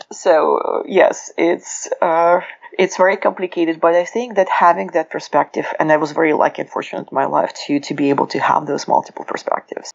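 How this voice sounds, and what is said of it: Russian accent. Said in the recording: “the accent is Russian”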